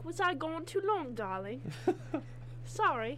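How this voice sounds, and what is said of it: Put-on British accent. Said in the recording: “Sometimes I break out that British accent a lot”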